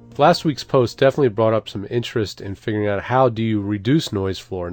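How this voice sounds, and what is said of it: Stuffy, congested voice. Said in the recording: “You probably might be able to hear in my voice that I've got a cold. ... fighting a sinus infection”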